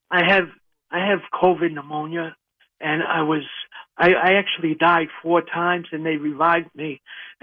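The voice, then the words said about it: Rough, weak voice. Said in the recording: “my voice is a little bad, but I was sick all last year, and I'm just recovering from being very, very sick.”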